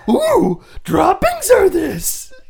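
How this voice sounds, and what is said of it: Miss Piggy impression. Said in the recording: “I was trying to do Miss Piggy ... Good, Miss Piggy ... your earlier impression”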